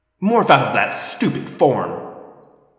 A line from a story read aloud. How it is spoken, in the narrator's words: Visser 3 snapped